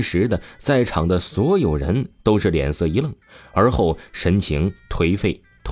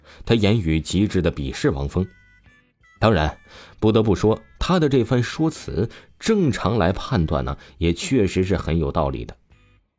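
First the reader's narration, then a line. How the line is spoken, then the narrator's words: Cold sneering laugh. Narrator (Chinese): 沈梦飞立刻冷笑出声道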